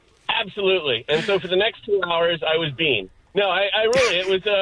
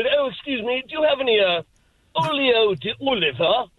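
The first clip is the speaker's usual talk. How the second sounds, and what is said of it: Exaggerated posh British accent. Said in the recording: “a bad English accent ... like an 80-year-old British guy with a pipe ... That was the accent that came out. I was one of the royals.”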